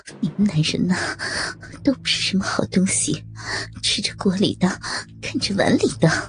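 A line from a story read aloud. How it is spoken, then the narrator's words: Sour, jealous, breathless. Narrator (Chinese): 吴影高潮未退，酸溜溜的说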